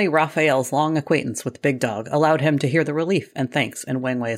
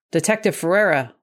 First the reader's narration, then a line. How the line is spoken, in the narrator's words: Wang Wei barked